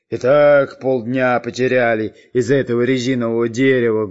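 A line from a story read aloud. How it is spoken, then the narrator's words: Menacing. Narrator (Russian): грозно посмотрев на шпиона Дырку, сказал Буль-Буль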